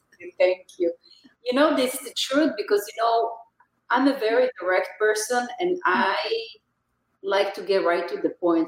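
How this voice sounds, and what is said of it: Speaks with a noticeable accent. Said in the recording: “Your accent. I could just listen to you for hours.”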